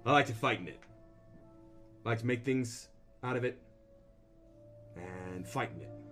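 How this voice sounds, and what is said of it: Put-on character accent. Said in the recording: “let me get the accent back”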